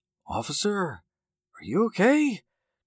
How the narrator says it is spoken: Jake said quietly

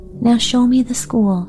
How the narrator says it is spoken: she begged

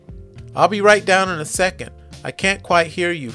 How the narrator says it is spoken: she yells back

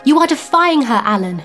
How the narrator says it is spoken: cried

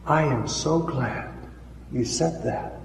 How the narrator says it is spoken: she whispered

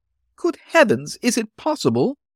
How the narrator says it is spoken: exclaimed, ghastly with increasing apprehensions

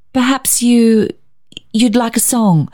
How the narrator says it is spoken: stammered Barbara

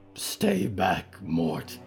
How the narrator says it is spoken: she growled, huge legs shaking

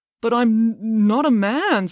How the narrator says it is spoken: stammered Joe

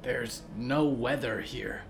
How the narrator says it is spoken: Olivier whispered

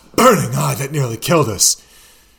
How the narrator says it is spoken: breathed

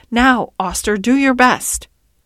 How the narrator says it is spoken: Blantyre groaned

